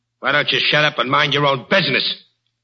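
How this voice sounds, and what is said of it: Angry yelling. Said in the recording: “Who are you yelling at?”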